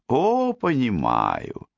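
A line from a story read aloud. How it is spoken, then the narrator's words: Cheerful exclamation. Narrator (Russian): весело воскликнула Розалинда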